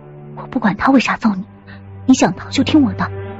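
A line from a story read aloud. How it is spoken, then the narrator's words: Whisper. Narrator (Chinese): 唐宁…悄声说道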